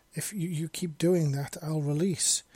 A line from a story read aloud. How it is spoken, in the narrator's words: she stammered in a passion filled and totally pleasure addled voice